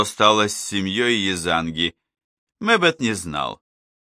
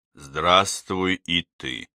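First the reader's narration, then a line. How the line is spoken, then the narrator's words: Dull muffled voice. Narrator (Russian): глухо произнес Мэббет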